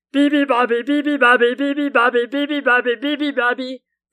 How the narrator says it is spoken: they roared

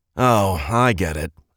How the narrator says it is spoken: Edmund grumbled

